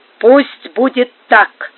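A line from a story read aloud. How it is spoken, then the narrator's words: Resolute voice. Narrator (Russian): решительным голосом произнес претендент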